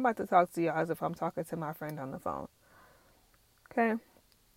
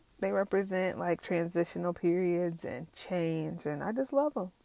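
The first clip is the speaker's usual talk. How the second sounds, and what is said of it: Forced radio-announcer voice. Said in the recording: “I'm really trying to force myself to have this radio voice. That's not me.”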